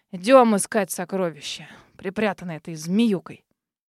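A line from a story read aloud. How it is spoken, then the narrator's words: Mock-angry grumble. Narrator (Russian): притворно сердито буркнул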